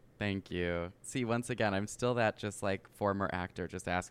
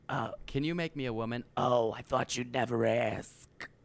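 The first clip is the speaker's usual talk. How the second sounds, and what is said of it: Imitates another person's voice. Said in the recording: “Very good impression.”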